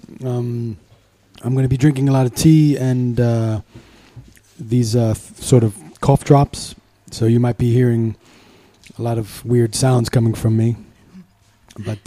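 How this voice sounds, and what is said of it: Rough, gravelly sick voice. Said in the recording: “my voice is going to be a little bit weird because I'm sick, a little sick. I have a sore throat ... Like Batman ... The Christian Bale Batman”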